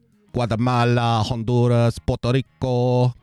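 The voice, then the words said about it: Exaggerated Latin American Spanish pronunciation. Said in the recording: “you have to do the little accent... Did you hear the way he pronounced Honduras?... he sounds like a native”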